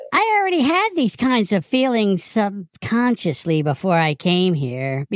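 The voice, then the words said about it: Man doing a woman's voice. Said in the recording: “put on your lady voice”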